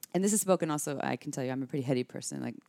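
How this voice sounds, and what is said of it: Talking very fast. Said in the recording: “I'm talking really fast right now. You can tell I'm just...”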